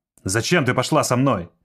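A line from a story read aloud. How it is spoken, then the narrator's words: Angry question. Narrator (Russian): зло спросил он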